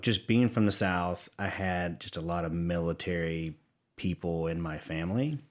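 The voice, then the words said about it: Southern American accent. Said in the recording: “they can probably hear my Southern accent coming through.”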